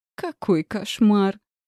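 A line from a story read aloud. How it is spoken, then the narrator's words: Hysterical laughter. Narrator (Russian): Я истерично рассмеялась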